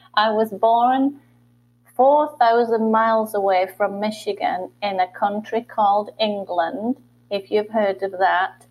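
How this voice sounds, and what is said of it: Northern English accent. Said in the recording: “You don't have a Michigan's accent... I do not have a Michigan accent... I am from the north part of England”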